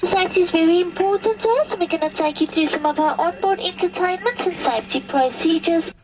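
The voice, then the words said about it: South African accented announcement. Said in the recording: “during a trip to South Africa, I flew with Kalula.com ... they have a rather different approach to flight announcements, if you can understand with the accent”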